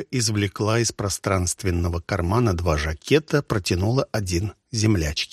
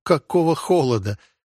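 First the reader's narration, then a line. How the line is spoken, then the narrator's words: Laughing. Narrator (Russian): засмеялась Ольга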